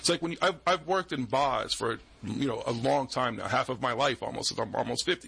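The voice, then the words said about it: Boston accent. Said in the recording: “You just might hear me say Mars instead of Mars because I have a Boston accent.”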